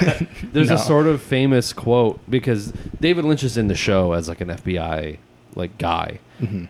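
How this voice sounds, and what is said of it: Usual voice. Nothing is said of it.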